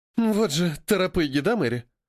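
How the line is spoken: Young woman sighing. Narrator (Russian): вздохнула девушка

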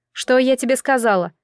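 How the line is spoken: Angry shout. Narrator (Russian): сердито прикрикнула

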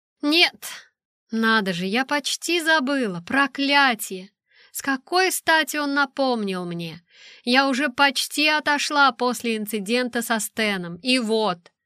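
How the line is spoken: Sighing. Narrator (Russian): Я вздохнула

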